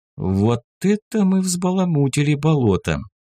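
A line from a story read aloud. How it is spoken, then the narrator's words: Bewildered mutter. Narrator (Russian): Даже несколько растерянно пробормотала лиса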